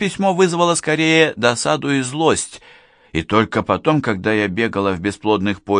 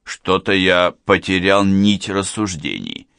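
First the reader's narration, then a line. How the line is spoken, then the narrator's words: Muttered. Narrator (Russian): пробормотал Лев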